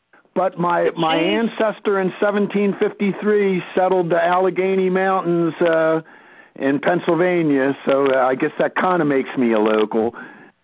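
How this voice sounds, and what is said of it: South Jersey American accent. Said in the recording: “you may be able to tell from my accent that I originate from South Jersey”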